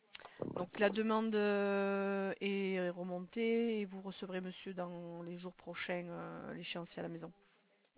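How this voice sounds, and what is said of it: Slight southern French Marseille accent. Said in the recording (French): “Vous avez un petit accent de Marseille, Toulouse? ... Oui, du côté de Marseille, c'est ça. ... Au lieu de dire vin, on dit vin.”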